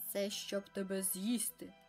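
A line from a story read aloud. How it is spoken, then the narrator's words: Wolf growling. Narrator (Ukrainian): загарчав вовк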